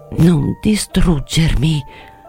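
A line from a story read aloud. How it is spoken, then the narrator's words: Murmured. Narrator (Italian): mormorò ancora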